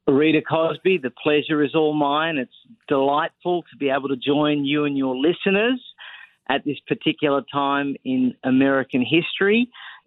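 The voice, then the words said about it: Australian accent. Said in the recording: “we hear your great Australian accent ... my accent is from Brooklyn. It is indeed from Australia”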